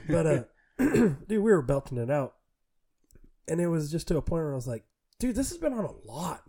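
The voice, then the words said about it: Strained, poorly working voice. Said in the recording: “my voice is not working great”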